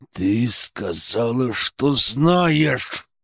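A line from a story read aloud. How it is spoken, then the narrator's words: Menacing growl. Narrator (Russian): Прорычал я таким голосом, что заставил поежиться даже близнецов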